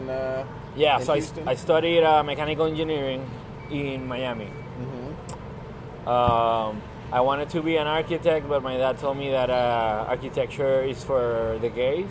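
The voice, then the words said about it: Thick Venezuelan Spanish accent. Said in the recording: “my thick accent or whatever”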